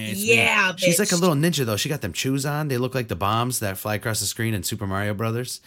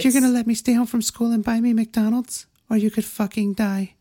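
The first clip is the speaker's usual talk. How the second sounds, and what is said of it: Imitates a little girl's voice. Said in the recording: “I like your little imitation of a child, like a female child.”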